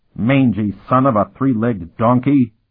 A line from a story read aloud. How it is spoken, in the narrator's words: he bellowed